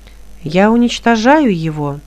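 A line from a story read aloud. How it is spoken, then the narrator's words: Calm. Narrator (Russian): спокойно произнесло божество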